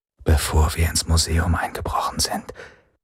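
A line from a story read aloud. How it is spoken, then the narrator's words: Equally quiet. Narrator (German): sagte Lian, genauso leise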